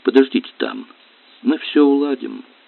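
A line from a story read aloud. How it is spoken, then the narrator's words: Gentle. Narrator (Russian): ласково сказал он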